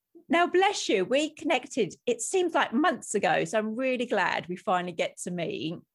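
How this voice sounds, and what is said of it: Sore-throated, slightly different-sounding voice. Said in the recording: “I've got a sore throat, so if I sound a little bit different than the average episode”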